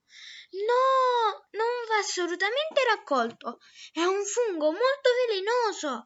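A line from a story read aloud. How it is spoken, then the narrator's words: Father, alarmed tone. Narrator (Italian): il papà gli disse con tono allarmato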